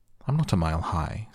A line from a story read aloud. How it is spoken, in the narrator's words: said Alice